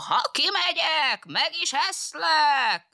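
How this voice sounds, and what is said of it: Imitates a wolf's voice. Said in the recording (Hungarian): “A róka újból a farkas hangját utánozta”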